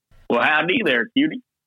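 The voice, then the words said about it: Put-on cowboy accent. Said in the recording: “say "Hey, cutie" in our best cowboy accent ... There you go. Nice. He wins.”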